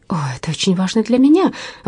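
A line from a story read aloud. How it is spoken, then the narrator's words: Exclamation. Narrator (Russian): воскликнула Верина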